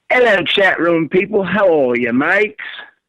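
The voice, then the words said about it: Put-on British accent. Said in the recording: “There was his British accent.”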